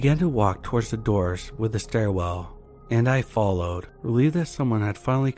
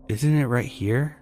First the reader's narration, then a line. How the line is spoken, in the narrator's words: I asked